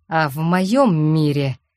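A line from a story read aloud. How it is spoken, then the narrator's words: Slow, through gritted teeth. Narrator (Russian): медленно сквозь зубы процедил Вархар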